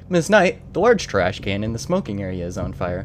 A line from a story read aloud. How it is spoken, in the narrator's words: calmly said